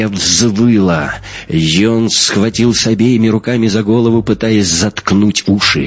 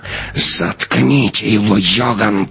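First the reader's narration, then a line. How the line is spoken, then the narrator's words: Hissing. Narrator (Russian): прошипела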